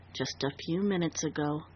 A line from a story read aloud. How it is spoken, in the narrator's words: Dundee answered softly